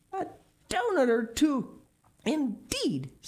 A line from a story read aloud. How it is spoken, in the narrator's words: snorted the little fat boy